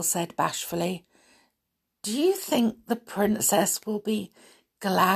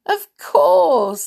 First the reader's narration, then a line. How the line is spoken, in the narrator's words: Happy chuckled